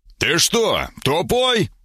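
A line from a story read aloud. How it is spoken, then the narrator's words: Hoarse shout. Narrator (Russian): выкрикнул я хрипло после выдоха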